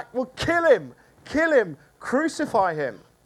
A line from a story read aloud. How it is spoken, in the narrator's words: they shouted back